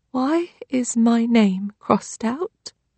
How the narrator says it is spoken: Trixie asks in a small voice

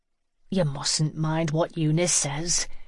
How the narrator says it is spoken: said gently

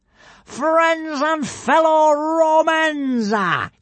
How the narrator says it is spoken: yelled Alvin the Treacherous from the consul's pavilion

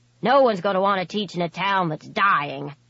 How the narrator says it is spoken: Jacob grumbled

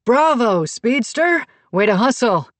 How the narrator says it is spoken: Coach Nick yelled

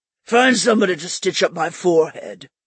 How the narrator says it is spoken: Stike grumbled

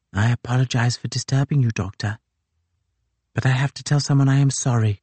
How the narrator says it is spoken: The lieutenant whispered

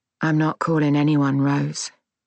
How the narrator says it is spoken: said calmly

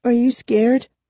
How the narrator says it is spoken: Kara whispered

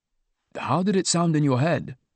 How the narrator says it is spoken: I asked

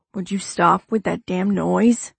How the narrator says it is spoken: Jax growls

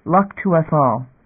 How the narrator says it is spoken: Damon said

